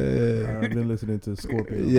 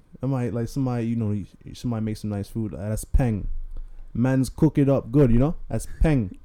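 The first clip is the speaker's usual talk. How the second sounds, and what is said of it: Put-on London slang, Caribbean-sounding. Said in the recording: “sounds more Jamaican than... you went more like Toronto Caribbean. You went Toronto Caribbean”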